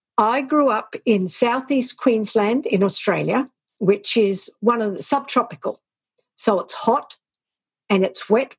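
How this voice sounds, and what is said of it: Australian accent. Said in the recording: “I hear an accent.”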